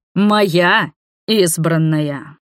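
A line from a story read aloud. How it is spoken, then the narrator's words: Magically amplified booming voice. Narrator (Russian): Усиленный магией голос первородного прогремел на весь храм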